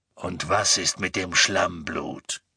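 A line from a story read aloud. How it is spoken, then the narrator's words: Growl. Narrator (German): knurrte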